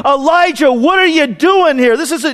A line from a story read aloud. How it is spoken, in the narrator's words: God doesn't come to him and shout in anger